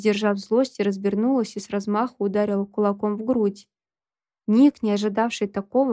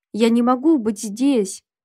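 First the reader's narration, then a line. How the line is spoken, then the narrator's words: Sudden bark. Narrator (Russian): вдруг рявкнул он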